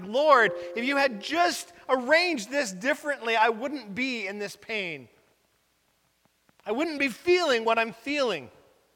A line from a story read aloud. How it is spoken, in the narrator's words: cried to God and said that